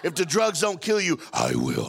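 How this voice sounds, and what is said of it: Deep, stern imitated male voice. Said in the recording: “My daddy had a deep voice, too. ... That's the way he talked.”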